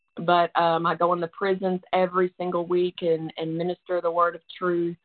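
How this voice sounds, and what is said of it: Tennessee accent. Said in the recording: “you can tell by my accent, but that's where I'm from, right outside of Nashville, Tennessee”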